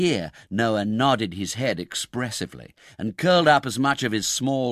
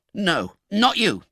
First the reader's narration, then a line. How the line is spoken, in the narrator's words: replied Oliver sharply